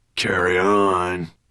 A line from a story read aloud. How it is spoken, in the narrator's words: growled Nettlebrand